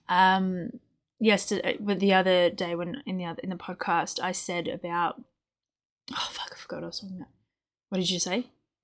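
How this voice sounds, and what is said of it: Shaky, uncomfortable-sounding voice. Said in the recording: “my voice is just like because I've got a migraine ... my my voice is a bit shaky”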